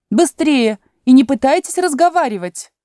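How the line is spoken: Queen shouting again. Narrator (Russian): королева снова крикнула

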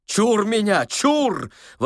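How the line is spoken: Booming operatic exclamation. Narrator (Russian): воскликнул он с шаляпинскими интонациями в голосе

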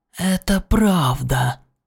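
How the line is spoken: Hissing. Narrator (Russian): прошипел Врил

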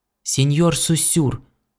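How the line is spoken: Trembling voice calling. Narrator (Russian): дрогнувшим голосом окликнул один из них

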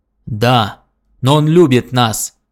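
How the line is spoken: Menacing voice. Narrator (Russian): грозно проговорил серк

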